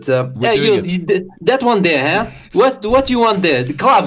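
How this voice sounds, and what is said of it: Portuguese butcher accent. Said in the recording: “We're doing Portuguese butcher ... you're doing the accent. You're the butcher.”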